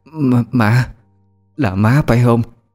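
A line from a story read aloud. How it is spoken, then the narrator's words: Stammering. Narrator (Vietnamese): Bà lắp bắp nói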